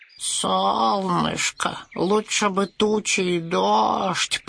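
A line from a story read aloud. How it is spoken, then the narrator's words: Hoarse wheeze. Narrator (Russian): прохрипел дождевой червяк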